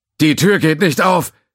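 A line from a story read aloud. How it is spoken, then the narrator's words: Voice calling from aside. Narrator (German): rief Bohaniens Stimme irgendwo links von ihm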